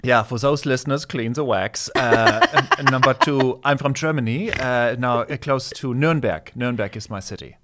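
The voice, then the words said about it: German-accented English. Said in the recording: “for my listeners who can't pick up the accent”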